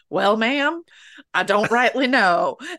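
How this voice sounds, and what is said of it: Thick Texas accent. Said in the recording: “he had a thick Texas accent”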